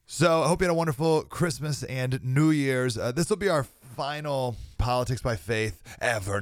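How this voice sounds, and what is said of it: Unusually low, sick-sounding voice. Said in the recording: “Still a little under the weather. Sorry my voice sounds extra low”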